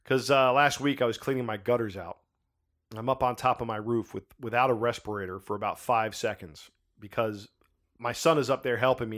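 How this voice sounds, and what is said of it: Slightly raspy voice. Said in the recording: “My voice is a little bit raspy today.”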